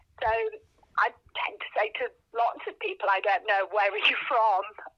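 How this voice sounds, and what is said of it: Mixed English regional accent. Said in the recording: “my very peculiar Middlesbrough stroke Birmingham stroke Canterbury accent ... oh, are you from Wales? Are you from America?”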